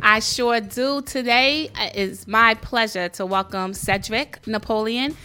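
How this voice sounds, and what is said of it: Strong New York accent. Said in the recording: “the New York accent comes out so crazy.”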